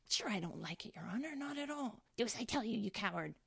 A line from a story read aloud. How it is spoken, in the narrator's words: whispers now and then